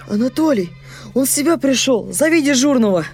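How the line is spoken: Overjoyed shout. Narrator (Russian): закричал необыкновенно радостным голосом

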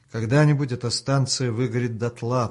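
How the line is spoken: Thinking aloud. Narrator (Russian): подумал вслух Артем

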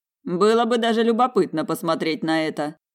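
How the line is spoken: Amused snort. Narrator (Russian): хмыкнул куратор

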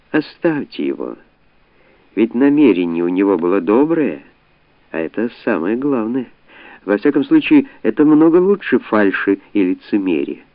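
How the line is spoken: Gentle singsong female voice. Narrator (Russian): изгнанница сказала нежным певучим голоском

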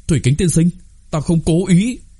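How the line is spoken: Hurried, loud cry. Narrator (Vietnamese): Đồng Khánh Vân vội vàng cao giọng kêu lên

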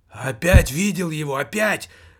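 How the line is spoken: Exclaimed. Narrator (Russian): воскликнул он

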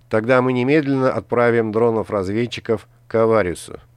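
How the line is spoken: Plain. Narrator (Russian): сказал Гаррет

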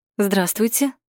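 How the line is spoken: Ringing clear voice. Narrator (Russian): звонким голосом проговорила Юля

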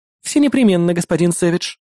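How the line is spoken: Giggle. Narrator (Russian): хихикнула она

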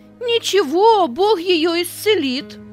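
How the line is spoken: Half-joking shout. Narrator (Russian): То ли серьезно, то ли шутя, выкрикнул Петя

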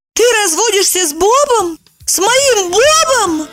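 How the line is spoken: Shrieking. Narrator (Russian): завопила

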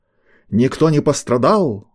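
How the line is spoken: Roaring. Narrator (Russian): взревел Полторак

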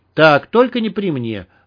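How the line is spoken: Stern. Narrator (Russian): строго сказала Клава

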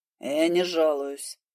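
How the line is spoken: Snapping back. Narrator (Russian): огрызнулся он

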